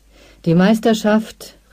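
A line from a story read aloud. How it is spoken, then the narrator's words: Announcer calling out. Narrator (German): rief der Sprecher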